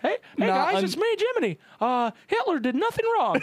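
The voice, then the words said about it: Cartoon cricket character voice. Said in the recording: “do a Jiminy Cricket impression”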